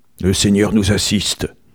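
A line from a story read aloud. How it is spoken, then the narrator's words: Gruff discontented muttering. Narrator (French): marmottait-il en aparté, d'un ton de mécontentement bourru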